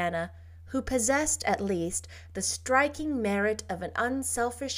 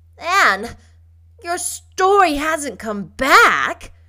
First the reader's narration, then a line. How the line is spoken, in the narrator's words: cried Diana incredulously